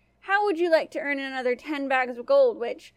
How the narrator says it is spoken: the queen asked

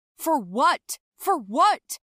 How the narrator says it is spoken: he shouted after me

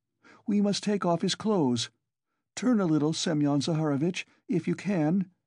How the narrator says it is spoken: she cried to him

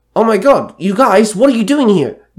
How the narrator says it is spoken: Danny called out in a hint of glee

